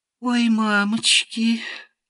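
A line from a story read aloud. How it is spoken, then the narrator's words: Languid sigh, three voices. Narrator (Russian): томно вздохнули три голоса сразу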